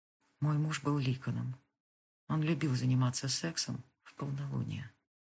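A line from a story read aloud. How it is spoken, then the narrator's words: Quiet. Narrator (Russian): Потом тихо сказала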